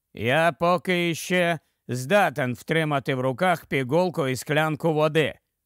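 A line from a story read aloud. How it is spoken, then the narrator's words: Grumble. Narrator (Ukrainian): буркнув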